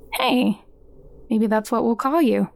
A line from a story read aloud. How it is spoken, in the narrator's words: he said